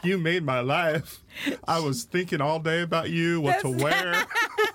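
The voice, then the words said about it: Put-on Southern accent. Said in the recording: “I don't know why I gave her. A southern accent. ... I don't know why you made her sound like that”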